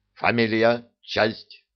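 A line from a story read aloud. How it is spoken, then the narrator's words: Harsh croaking voice. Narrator (Russian): резко каркающим голосом добавил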